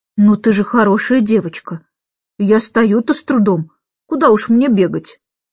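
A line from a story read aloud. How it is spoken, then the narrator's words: Sighing. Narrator (Russian): Джейн вздохнула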